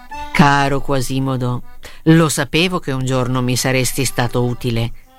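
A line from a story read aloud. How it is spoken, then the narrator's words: Plain. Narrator (Italian): disse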